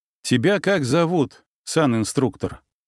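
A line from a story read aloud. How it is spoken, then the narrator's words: Calm question. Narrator (Russian): спокойно поинтересовался я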